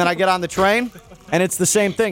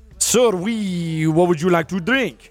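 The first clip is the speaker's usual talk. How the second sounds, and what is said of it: Attempted French accent. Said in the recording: “he's got a French accent. Uh, uh, hmm. I don't know how to do that.”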